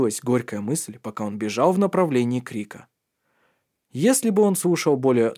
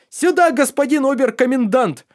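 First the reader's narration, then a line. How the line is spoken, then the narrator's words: Shouted. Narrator (Russian): закричал он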